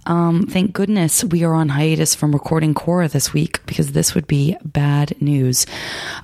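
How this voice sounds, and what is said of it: Weak, rough voice. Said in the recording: “my voice is sounding awesome... I have a cold... I just don't have that much of a voice”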